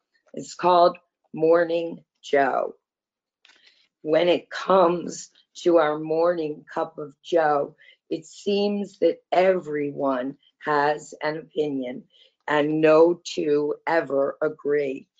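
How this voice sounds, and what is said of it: Hoarse, husky voice. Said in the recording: “I've had laryngitis for several days now... my voice is not usually quite this husky”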